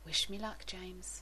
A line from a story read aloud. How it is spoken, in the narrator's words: whispers